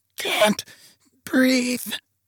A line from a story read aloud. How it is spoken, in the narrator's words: she croaked